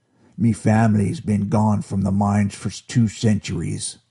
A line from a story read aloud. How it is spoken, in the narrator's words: Findert growled